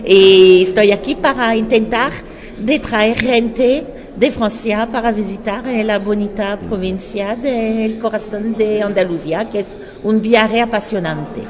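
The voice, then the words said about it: French accent speaking Spanish. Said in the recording (Spanish): “yo me quedo con mi acento ... el acento le da, como dicen ustedes, un cierto charme, ¿no? Encanto”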